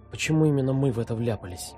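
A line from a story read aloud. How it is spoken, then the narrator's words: Whispered. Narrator (Russian): прошептала Оля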